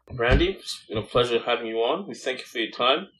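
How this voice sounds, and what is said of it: Speaks with a noticeable accent. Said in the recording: “putting up with my accent.”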